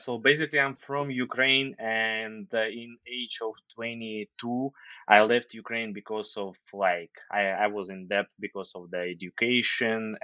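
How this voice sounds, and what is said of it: Slight Ukrainian accent. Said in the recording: “you have, at least from our side, a bit of an accent. You would say we have the accent, but were you born and raised in Ukraine?”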